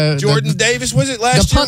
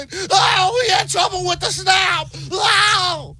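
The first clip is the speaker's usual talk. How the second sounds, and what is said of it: Imitates a sportscaster's excited play-call. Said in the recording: “That's a Gus Johnson impersonation. ... No, it was Sean McDonough. ... Can I just say it sounded a bit more like Gus Johnson? ... I can't get the crack.”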